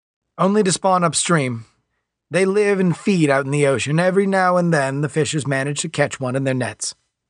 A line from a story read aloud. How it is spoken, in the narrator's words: said Smythe